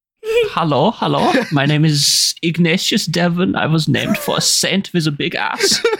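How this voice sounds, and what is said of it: Put-on German accent. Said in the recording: “German”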